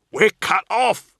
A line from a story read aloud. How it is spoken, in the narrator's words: Cole shouted